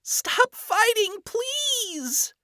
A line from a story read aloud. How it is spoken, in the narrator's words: she pleaded